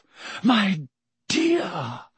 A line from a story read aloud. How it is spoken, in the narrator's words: Professor Trelawney breathed